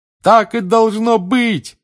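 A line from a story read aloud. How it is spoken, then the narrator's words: Loudest shout. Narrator (Russian): громче всех кричал Рон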